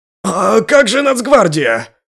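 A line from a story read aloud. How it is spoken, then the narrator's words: Yelled. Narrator (Russian): завопил Пако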